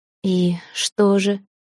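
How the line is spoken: Indifferent young woman's tone. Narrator (Russian): равнодушным тоном уточнила девушка

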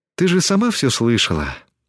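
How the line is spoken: Sighed. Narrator (Russian): вздохнула Тесми

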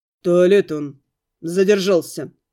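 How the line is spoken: Wolf's growl. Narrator (Russian): рыкнул волк

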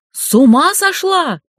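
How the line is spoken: Exclaimed. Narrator (Russian): воскликнула Вероника

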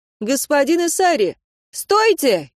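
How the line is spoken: Shouted. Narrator (Russian): крикнула она

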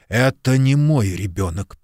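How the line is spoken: Hissed. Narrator (Russian): прошипел Куб

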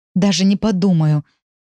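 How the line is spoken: Furious, through gritted teeth. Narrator (Russian): яростно цежу сквозь зубы

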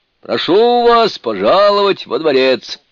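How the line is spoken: Loud proclamation. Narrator (Russian): громко провозгласил он

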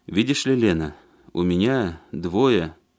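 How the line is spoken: Soft hint. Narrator (Russian): мягко намекнул он

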